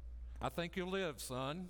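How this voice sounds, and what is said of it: Heavy put-on southern accent. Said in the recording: “he had a southern accent that would make you think I'm from Minnesota.”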